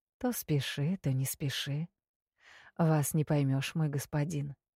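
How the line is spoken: Purring. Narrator (Russian): промурлыкала я

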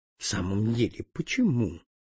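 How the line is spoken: Gentle. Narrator (Russian): ласково ответил Вандам

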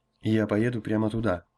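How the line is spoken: Plain. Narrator (Russian): сказал Грон

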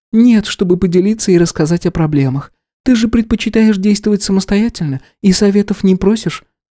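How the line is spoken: Feigned sigh. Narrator (Russian): деланно вздохнула и продолжила

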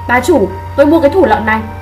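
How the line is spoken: Shouting. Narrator (Vietnamese): Cao Ngữ Lam hét với bà chủ hàng thịt

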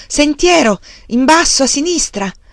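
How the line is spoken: Shouted. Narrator (Italian): lui gridò di nuovo

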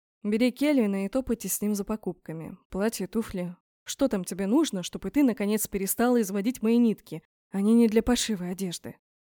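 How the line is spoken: Tired explanation. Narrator (Russian): пояснил он устало

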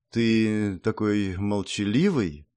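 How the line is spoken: Insinuating, silky. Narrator (Russian): вкрадчиво произнесла глава 10-го клана

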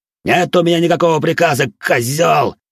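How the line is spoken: Screaming in pain. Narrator (Russian): Заорав от боли, выкрикнул Харви

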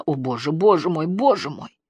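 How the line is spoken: Hoarse muttering. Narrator (Russian): Она лишь хрипло пробормотала

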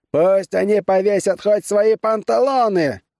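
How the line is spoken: Shouted. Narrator (Russian): закричал

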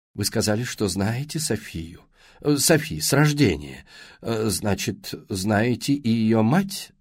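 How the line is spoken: Plain question. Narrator (Russian): спросила Эллен Уоттс

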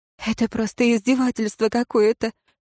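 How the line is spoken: Sobbing through laughter. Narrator (Russian): всхлипнула сквозь смех узница

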